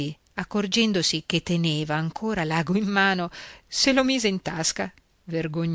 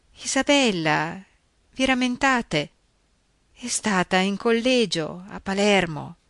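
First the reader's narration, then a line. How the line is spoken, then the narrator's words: Murmured. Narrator (Italian): mormorò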